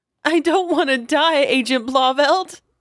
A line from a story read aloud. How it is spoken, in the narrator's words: Maeve sobbed